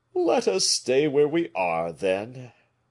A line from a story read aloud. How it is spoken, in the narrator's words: said his friend with a sigh, which, in spite of the efforts he made to restrain it, escaped his echoing breast